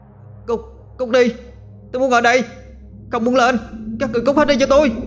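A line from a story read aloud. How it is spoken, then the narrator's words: Continuous screaming. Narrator (Vietnamese): thằng Tuấn miệng liên tục la hét lên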